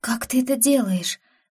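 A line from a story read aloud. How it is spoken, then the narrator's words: Breathless exhale. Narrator (Russian): выдохнула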